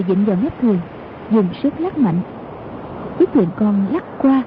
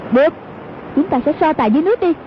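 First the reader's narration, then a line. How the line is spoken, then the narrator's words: Shout. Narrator (Vietnamese): Hoàng Dung giơ ngọn Nga Mi Cương Thích lên quát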